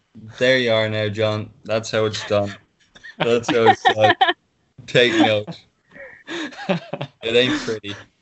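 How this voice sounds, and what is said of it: Irish accent. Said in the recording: “really Irish accent ... I love how much amusement Adam gets from your accent.”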